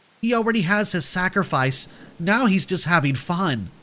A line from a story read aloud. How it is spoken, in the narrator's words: says, and bursts into a wicked cackle